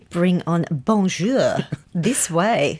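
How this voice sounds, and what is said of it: Terrible put-on French accent. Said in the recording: “a terrible French accent”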